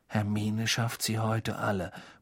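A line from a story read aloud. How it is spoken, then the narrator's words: Awed murmur. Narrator (German): murmelte Ron mit ehrfurchtsvoller Miene Harry zu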